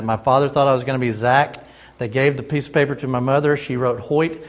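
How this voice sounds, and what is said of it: Slight Southern Wisconsin drawl. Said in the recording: “a little bit of Southern Wisconsin drawl”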